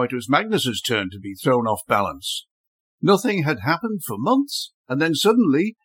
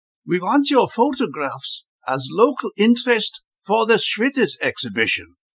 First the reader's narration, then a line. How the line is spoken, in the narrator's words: exclaimed, with relief